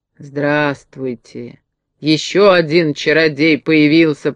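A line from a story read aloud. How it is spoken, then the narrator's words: Displeased grumbling. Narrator (Russian): проворчала недовольная фея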